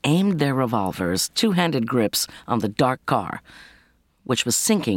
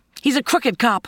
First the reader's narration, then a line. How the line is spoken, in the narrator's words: Kate shouted back